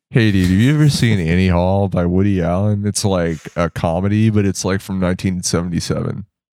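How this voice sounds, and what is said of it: Impression of a laid-back DIY dude. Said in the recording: “your impression of like a DIY dude outside of a show smoking a cigarette”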